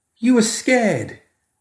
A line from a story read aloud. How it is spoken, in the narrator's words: the kid declared triumphantly